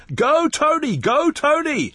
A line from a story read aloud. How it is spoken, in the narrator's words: the other spectators yelling